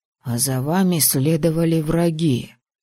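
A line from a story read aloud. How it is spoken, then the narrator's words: Whispered. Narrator (Russian): прошептал Мэтт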